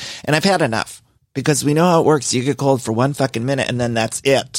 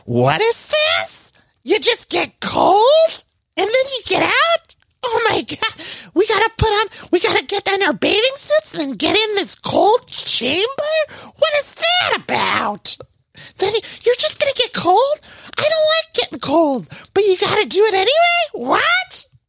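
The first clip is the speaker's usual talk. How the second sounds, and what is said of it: Weak impression of Noella. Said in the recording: “That's not a good Noella impression, but you know, that's the impression of basically anyone in a Bravo scene getting in cryotherapy.”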